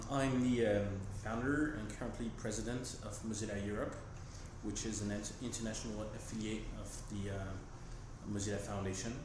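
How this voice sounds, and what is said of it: French accent. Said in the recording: “As you may hear from my accent, I'm French”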